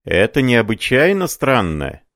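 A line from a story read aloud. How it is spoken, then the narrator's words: Shouted. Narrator (Russian): закричал переписчик-медиум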